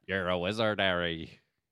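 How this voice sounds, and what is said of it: Poor impression of Hagrid. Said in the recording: “Hagrid, the horrible... Hagrid does not sound like that.”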